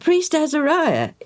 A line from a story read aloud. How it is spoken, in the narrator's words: Eliad said